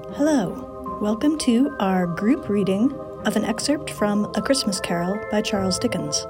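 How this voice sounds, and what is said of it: Classical radio announcer voice. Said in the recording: “my classical music radio station announcer voice”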